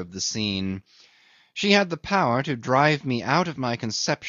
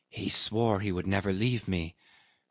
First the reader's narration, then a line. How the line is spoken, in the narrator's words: she whispered softly